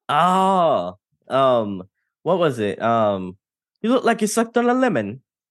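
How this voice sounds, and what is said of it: Put-on accent, done badly. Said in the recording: “excuse my accent, everyone. It's terrible”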